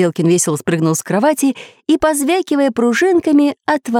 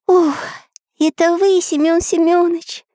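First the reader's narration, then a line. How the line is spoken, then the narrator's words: Relieved sigh. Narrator (Russian): Облегченно вздохнул Карандаш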